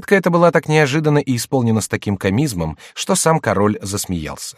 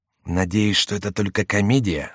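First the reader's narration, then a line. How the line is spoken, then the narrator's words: Whisper. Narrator (Russian): сказал шепотом Келлюз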